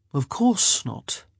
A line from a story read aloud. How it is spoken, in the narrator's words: he murmured